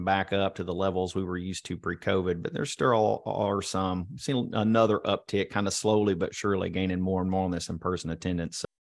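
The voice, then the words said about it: Distinct accent, pleasant voice. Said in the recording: “listen to that accent. The guy's got a voice you could listen to for hours”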